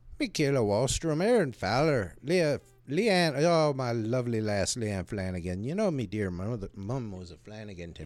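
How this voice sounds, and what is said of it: Put-on Irish accent. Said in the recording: “Oh, he's using his Irish accent.”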